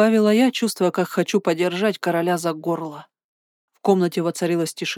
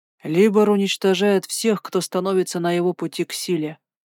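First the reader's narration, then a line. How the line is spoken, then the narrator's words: Grim. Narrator (Russian): мрачно произнес Бестваж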